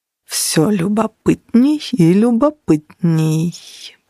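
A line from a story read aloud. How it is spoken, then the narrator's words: Drawn out. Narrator (Russian): протянул Ян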